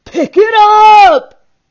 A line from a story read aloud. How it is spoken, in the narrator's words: Gaunt bellowed at her